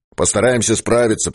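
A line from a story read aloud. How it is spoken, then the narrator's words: Bearded man's deep drone. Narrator (Russian): прогудел бородач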